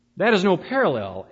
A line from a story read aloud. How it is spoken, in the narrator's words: answered rather irritably